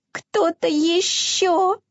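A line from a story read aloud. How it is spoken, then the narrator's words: Faint mouse-like squeak. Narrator (Russian): пропищал Изюмка едва слышно, словно мышонок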